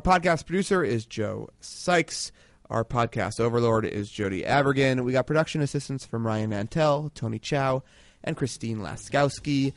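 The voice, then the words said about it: Slightly nasal, congested drawl. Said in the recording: “my slightly more nasal drawl this week as I recover from a sickness”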